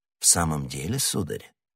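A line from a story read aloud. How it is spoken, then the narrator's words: Very calm question. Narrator (Russian): переспросил незнакомец еще более спокойным тоном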